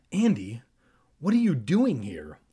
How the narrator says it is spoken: he cried out

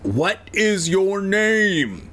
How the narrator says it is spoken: he shouted, speaking each word slowly, as if maybe Evan didn't speak English

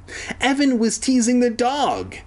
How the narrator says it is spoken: he cried, like a little bitch

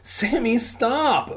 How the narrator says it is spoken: Brent begged

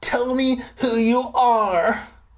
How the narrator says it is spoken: I shouted

